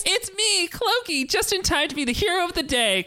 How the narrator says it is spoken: Clokey said with a giggle

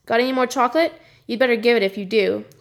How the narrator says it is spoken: he said

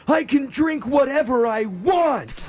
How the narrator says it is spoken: her dad chimed in and yelled

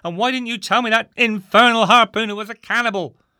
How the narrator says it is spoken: shouted

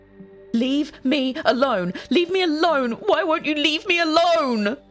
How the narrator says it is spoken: screams

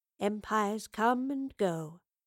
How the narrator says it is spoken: uttered quietly to herself

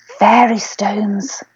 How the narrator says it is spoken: whispered

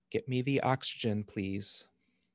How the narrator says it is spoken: One of the midwives calmly said

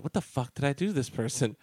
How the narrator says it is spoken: I would just whisper

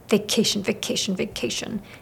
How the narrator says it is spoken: Still grumbling, Milo got to his feet, quietly whispering

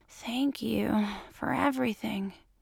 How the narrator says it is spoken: he wheezes out

